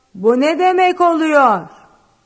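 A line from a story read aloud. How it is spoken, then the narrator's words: Shouted. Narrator (Turkish): diye bağırdı Basti zenciye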